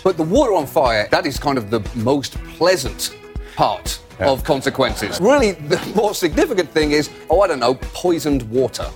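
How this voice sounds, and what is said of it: British accent. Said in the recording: “John Oliver, you say that like it's a bad thing. And with a British accent, so it sounds even worse.”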